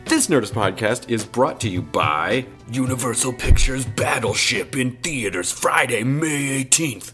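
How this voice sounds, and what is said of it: Resonant movie trailer voice. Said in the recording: “That's the best cinema voice that I can do. This is the trailer voice right now. It's not bad because I feel like I'm getting a little bit of a cold and it really gives it that resonance.”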